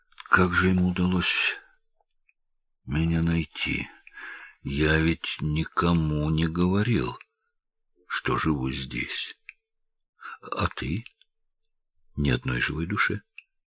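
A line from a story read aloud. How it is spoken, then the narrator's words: Mutter. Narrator (Russian): Джеффри пробормотал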